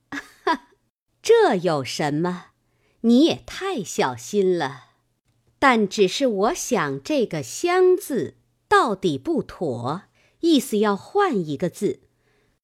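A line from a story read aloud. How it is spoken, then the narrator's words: Laughing. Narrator (Chinese): 金贵笑道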